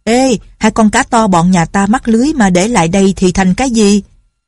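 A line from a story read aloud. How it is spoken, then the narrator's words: Shouted. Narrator (Vietnamese): Đào Chi Tiên la lên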